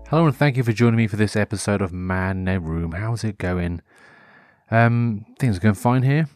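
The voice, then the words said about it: Mild Norfolk English accent. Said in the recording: “my Norfolk accent has actually started to be a bit stronger ... some sort of twang ... it's not strong, but then again, it's not exactly weak”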